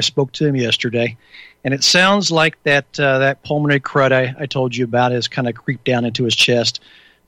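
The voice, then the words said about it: Husky, hoarse voice. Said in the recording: “You can probably tell by my voice. I'm a little husky still. A good radio voice.”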